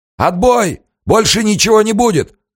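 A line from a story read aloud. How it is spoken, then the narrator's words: Shouted command. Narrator (Russian): крикнул штабс-капитан ударницам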